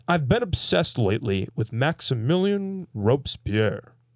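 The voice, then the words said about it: Poor Brandon Sanderson impression. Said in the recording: “my horrible Sanderson impression.”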